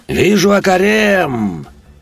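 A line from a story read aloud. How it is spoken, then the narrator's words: Cheerful yell. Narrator (Russian): Весело проорал командир пятерки разведчиков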